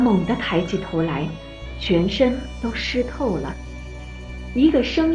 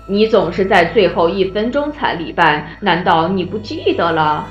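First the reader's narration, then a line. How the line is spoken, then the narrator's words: Smiling old man. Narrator (Chinese): 老人仍然微笑着说道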